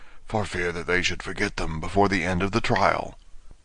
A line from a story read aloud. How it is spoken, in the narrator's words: the Gryphon whispered in reply